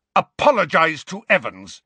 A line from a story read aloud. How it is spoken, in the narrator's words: James roared at Snape